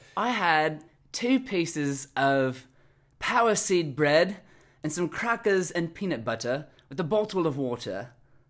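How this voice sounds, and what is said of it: Put-on British accent. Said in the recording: “With a British accent ... I'm afraid it's going to be terrible.”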